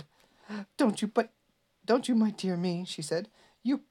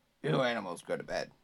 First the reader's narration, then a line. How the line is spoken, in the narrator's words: said gruffly